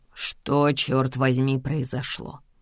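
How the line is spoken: Quiet. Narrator (Russian): Тихо обращается он ко мне

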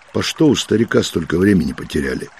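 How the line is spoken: Displeased grumble. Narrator (Russian): недовольно ворчал Матвей

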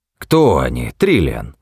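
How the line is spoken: Irritated question. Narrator (Russian): раздраженно спросил Зафот

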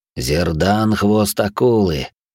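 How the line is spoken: Flat clipped mutter. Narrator (Russian): безо всякого выражения процедил Марк

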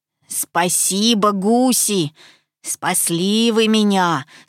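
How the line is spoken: Plain. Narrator (Russian): сказал гусь

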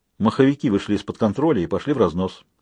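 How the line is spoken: Mumbling. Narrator (Russian): пробормотал Людзе

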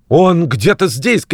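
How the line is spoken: Shouted. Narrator (Russian): крикнул он

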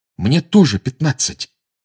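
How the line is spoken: Heated exclamation. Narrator (Russian): с горячностью воскликнул Гарри

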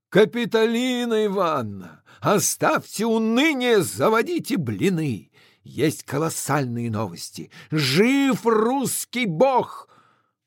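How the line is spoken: Shout. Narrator (Russian): Крикнул ей

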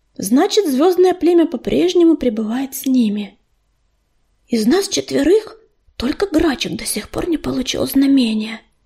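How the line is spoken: Whispered. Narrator (Russian): прошептала ласточка

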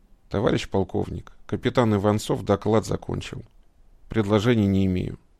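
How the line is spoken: Dejected, fallen voice. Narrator (Russian): совсем другим, упавшим голосом сказал

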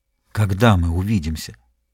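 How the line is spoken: Whispering. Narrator (Russian): прошептал

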